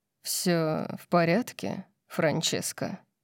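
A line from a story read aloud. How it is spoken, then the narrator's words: Velvety voice. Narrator (Russian): спросил Орион бархатным голосом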